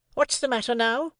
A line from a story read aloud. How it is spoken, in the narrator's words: repeated my sister more sharply than before